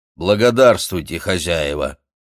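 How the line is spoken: Dry. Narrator (Russian): двоюродный брат сухо сказал

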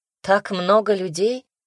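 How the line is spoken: Choked snort. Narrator (Russian): Даня хмыкнул и чуть не подавился, зажав рот кулаком

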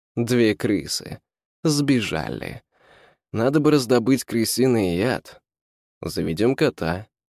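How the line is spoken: Plain. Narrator (Russian): сказал Ван Хельсинг

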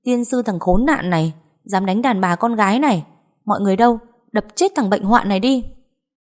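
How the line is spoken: Loud outraged shout. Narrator (Vietnamese): Ngọc Vin hét toáng lên

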